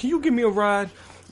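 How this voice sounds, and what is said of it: Put-on accent. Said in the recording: “Excuse the accent I gave that guy.”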